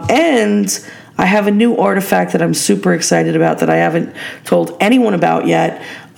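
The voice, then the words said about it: Hoarse, fading voice. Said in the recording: “I'm already losing my voice”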